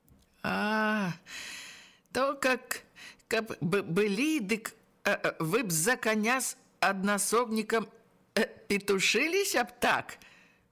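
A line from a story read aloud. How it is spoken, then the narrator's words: Laughing. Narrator (Belarusian): засмяяўся Ягор Пішчыкаў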